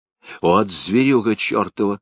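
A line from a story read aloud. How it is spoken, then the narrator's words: Threatening voice. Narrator (Russian): сказала Бочкова угрожающим голосом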